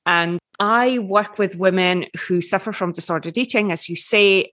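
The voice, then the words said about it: Scottish accent. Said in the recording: “I'm coming to you from Edinburgh, Scotland, which you might detect from the accent.”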